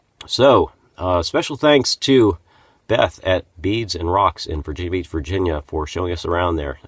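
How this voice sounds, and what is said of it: Congested voice from a cold. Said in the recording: “my voice is dramatically different. I'm actually recording this several days later, and I have a cold, or at least getting over one”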